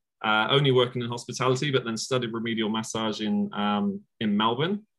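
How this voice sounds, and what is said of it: English accent. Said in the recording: “Came out from England, as you can probably tell from the accent.”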